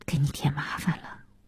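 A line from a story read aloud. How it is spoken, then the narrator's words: Low voice. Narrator (Chinese): 小西低声地说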